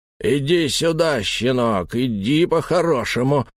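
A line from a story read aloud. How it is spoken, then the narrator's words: Growl from above. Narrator (Russian): прорычал кто-то сверху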